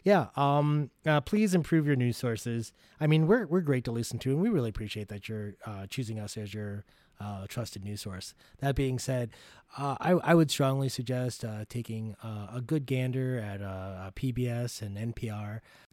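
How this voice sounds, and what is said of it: Calm public-radio announcer voice. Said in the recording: “since I'm using my NPR voice right now”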